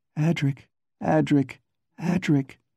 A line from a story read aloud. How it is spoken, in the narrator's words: she begged